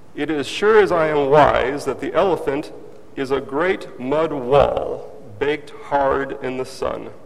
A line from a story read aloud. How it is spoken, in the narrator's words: the first man cried